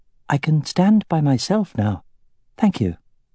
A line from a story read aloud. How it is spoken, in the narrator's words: in her sweetest voice said